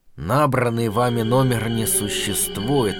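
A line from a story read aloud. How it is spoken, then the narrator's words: Lifeless, mechanical voice. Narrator (Russian): сказала вымороченным голосом богиня связи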